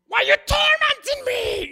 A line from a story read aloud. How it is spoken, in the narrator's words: He shrieked at him